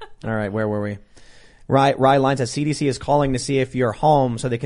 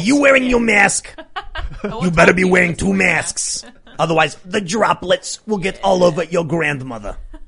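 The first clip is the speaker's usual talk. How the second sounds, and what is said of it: Imitates another person's voice. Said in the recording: “in your Fauci voice.”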